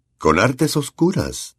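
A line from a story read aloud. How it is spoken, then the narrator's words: Kind repeating voice. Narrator (Spanish): repitió con voz amable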